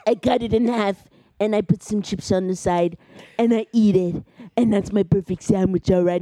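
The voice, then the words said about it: Imitates another person's voice. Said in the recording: “Do a good Trump impression”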